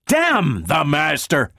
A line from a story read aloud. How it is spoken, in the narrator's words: Donovan spat